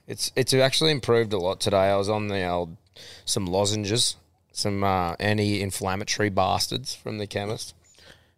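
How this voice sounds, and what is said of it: Hoarse, impaired voice. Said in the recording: “Hopefully someone can breathe a bit of voice into me today... if you think my voice sounds a little impaired, you'd be right”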